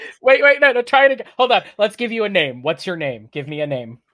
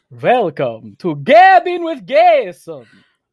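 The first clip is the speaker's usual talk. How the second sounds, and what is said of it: Dracula-style vampire voice. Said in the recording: “I will talk to you in my Dracula voice”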